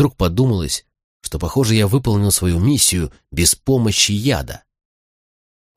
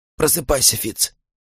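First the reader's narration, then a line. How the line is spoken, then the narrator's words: Hoarse whisper. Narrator (Russian): прошептал он хрипло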